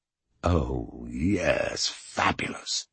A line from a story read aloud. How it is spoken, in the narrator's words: he whispered